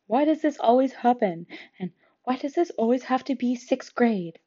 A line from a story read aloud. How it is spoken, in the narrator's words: muttering